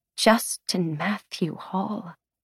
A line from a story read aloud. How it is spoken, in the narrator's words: she says in a dangerously quiet voice